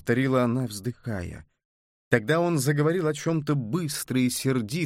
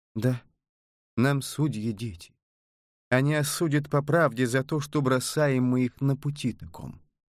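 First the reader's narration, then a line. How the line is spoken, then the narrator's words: Muffled, hollow voice. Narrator (Russian): глухо ответила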